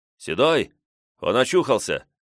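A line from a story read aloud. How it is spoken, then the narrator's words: Bandit's shout. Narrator (Russian): крикнул один из бандитов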